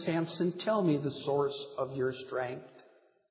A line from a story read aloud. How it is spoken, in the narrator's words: cooing softly in his ear